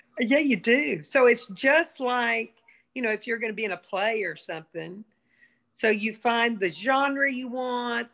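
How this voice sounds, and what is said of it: Southern American accent. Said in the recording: “you can only do old Southern lady ... your voice has always reminded me of Reba McEntire ... Mom, you can't do general American. Every word you say”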